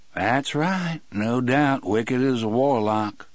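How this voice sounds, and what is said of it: Soothing, gentle voice. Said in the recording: “in his most soothing voice.”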